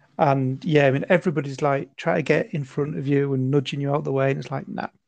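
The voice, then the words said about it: Northern English accent. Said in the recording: “I can't quite work out where your accent is from ... I recognise the accent, but I don't know what part of the UK it is ... Now you said it's a northern accent ... It's definitely not Scottish. Not Welsh. Not Irish.”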